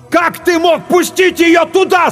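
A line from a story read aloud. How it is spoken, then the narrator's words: Yelling. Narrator (Russian): заорал Клайв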